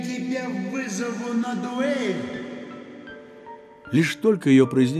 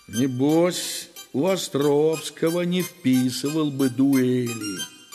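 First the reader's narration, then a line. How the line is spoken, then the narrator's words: Grumbling. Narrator (Russian): ворчал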